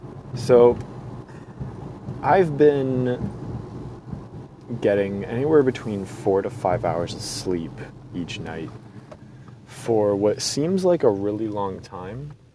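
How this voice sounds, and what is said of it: Fuzzy, sick-sounding voice. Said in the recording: “my voice is still a little fuzzy ... Still trying to get over this cough”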